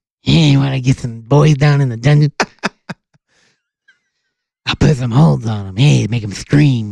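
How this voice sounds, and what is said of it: Imitates another person's voice. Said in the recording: “That's my Stu Hart impression ... If you ever heard Stu Hart, it's not bad.”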